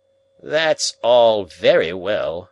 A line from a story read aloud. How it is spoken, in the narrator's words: grumbled Summerlee